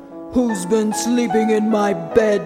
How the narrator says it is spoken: growled the Father Bear

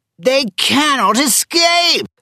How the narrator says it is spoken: shouted the sheriff to his men

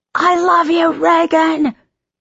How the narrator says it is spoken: Some guy screamed in the audience

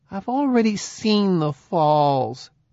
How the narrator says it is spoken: Kimberly whined

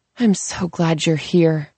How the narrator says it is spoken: she says on a sigh

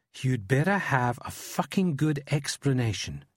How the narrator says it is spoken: she hisses

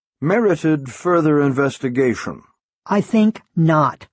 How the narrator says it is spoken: the Reverend said sharply

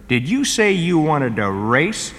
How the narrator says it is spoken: asked the fish

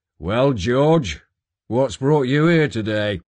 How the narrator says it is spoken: he boomed

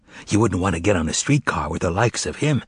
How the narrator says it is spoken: whispered the storyteller gaily

